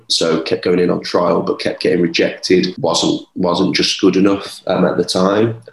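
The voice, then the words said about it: Birmingham English accent. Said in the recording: “I'm from Birmingham, as you could probably tell with my accent.”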